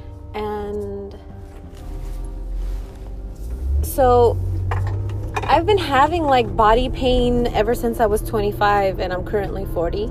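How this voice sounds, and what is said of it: Out of breath, breathy speech. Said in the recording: “I'm sorry if I'm like out of breath because I was running to my car”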